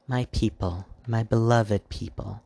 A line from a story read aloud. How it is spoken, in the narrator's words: the Dark Queen crooned, her voice soft like velvet but carrying fire magically